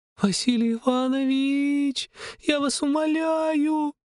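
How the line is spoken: Muffled sobbing. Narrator (Russian): Рыдала она, уткнувшись мне в плечо

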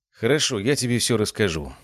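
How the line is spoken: Said with sorrowful sigh. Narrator (Russian): сказал я и горестно вздохнул

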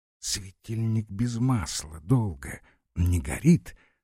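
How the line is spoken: Whispered question. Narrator (Russian): спросила она шепотом Подозерова

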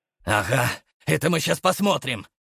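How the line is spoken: Angry smirk. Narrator (Russian): зло усмехнулся Игнат

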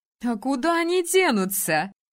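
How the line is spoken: Laughing. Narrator (Russian): рассмеялась подруга

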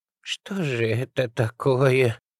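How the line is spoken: Helpless moan. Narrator (Russian): бессильно простонала Аллочка

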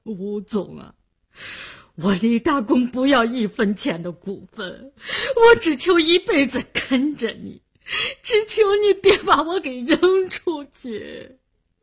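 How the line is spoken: Crying. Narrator (Chinese): 他哭着说

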